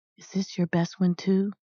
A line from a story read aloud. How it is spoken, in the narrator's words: he whispered